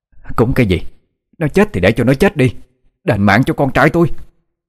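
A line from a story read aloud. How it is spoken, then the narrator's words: Woman's loud scream. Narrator (Vietnamese): Dì ta hét to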